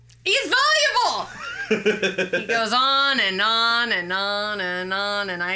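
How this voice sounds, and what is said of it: Usual voice. Nothing is said of it.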